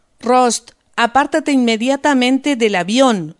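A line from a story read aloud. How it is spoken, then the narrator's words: Policeman shouting. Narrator (Spanish): gritó el policía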